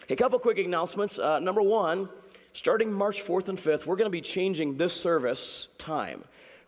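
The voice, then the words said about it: Strained, recovering voice. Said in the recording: “my voice is not quite back, but it's better”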